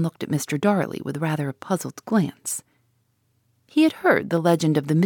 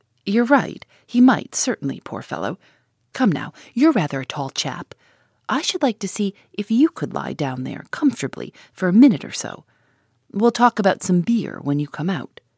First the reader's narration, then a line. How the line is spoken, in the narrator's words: Gus laughed and said